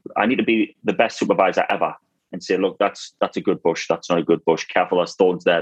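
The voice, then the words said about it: Northeastern English accent. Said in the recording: “your familiar northeastern accent”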